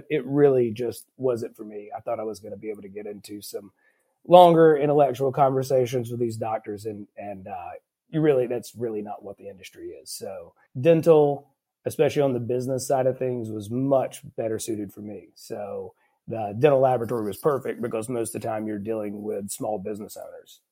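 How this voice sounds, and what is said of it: Southern US accent. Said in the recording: “if you can't tell by the accent, it was in the Southeast.”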